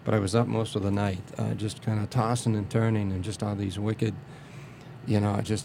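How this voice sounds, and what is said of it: Tired, strained speaking voice. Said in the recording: “Really tired today. I'm sorry to say, you can hear it in my voice. ... It's very hard to talk.”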